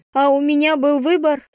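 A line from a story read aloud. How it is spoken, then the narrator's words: Cried out. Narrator (Russian): вскрикнула она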